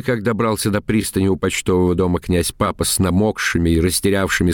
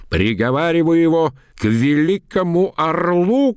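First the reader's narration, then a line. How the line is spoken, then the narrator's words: Shouting. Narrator (Russian): кричал Бутурлин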